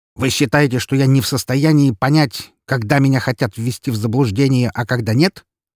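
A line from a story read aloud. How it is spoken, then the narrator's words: Very irritated question. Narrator (Russian): задал он вопрос и сделал это весьма раздраженным тоном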